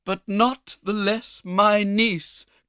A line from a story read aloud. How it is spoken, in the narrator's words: cried Mrs